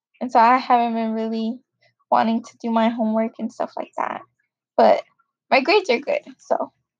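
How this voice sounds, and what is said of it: Hoarse, strained voice. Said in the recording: “I'm kind of losing my voice”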